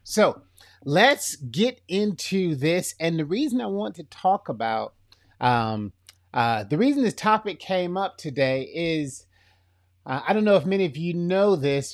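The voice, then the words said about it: Florida accent, kind of country. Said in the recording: “this accent, I don't really know where it comes from because it sounds like Florida, but it's kind of country”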